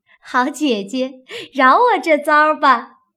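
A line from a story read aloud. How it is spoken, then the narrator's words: Laughing, pleading. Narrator (Chinese): 湘云笑道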